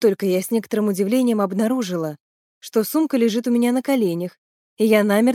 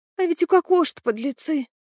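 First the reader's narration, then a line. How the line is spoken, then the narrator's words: Sighing. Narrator (Russian): вздохнула Сонька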